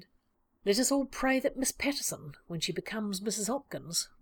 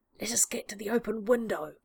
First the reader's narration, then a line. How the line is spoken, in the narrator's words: Lestrade whispered, his tone vibrating with the thrill of the chase